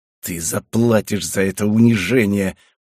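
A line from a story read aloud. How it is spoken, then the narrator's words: Growl. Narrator (Russian): прорычал он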